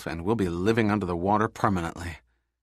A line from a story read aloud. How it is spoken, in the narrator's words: he muttered to himself